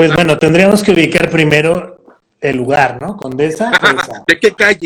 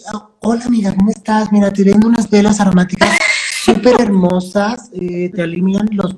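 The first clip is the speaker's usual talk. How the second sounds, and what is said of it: Character voice of a chatty saleswoman. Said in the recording (Spanish): “haz voz así ... haz voz de, vendedora de veladoras aromáticas de la condesa”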